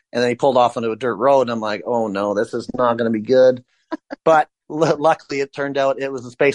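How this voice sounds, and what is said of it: Usual voice. Nothing is said of it.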